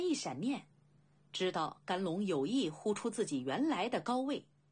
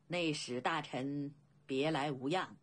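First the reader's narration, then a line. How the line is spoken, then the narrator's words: Faint calm smile. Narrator (Chinese): 甘龙淡淡笑道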